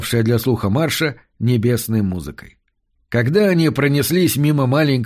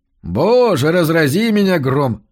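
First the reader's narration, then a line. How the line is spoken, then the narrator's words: Exclamation. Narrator (Russian): воскликнул Марш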